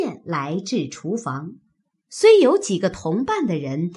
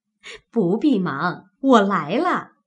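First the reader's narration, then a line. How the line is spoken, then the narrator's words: Laughing. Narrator (Chinese): 柳家的 笑说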